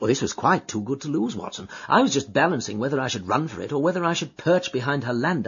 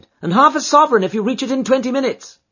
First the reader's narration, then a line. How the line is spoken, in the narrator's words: she cried